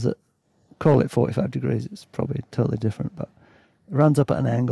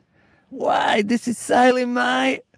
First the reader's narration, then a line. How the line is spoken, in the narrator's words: He yells over the noise of the pounding ocean, all teeth and the whites of his eyes